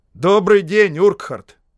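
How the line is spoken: Loud. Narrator (Russian): громко сказал Шарп

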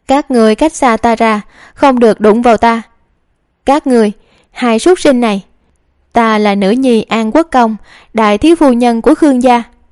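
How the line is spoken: Terrified shrill scream. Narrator (Vietnamese): Hầu Uyển Vân hoảng sợ thét chói tai

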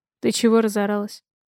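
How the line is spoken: Forced calm question. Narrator (Russian): Спрашиваю я, стараясь говорить спокойно

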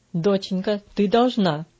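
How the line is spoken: Stern reply. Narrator (Russian): ответил он так строго

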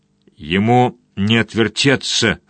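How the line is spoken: Hoarse, gasping. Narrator (Russian): хрипел он, дико хватая ртом воздух

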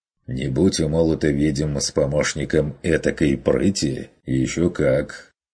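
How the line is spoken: Calmer hunter. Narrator (Russian): Согласился охотник уже чуть более спокойно, отметил

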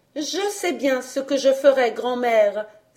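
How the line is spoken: Joyful exclamation. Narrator (French): s'écria-t-elle joyeusement

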